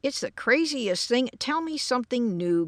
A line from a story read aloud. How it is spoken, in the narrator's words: growled George